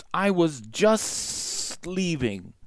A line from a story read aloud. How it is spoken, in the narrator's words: Kaa hissed